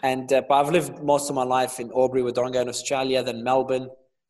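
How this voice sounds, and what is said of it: Australian accent. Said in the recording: “We certainly picked up the accent ... I've got the accent, again, the Australian accent”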